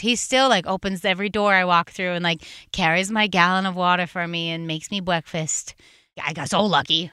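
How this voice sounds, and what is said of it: Subtle underlying Massachusetts accent. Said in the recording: “Where is that accent from that's like underneath? ... I'm Massachusetts.”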